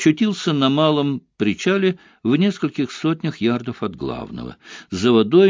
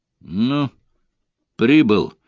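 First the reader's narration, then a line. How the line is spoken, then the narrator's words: Tense announcement. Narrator (Russian): довольно напряженным тоном объявил воин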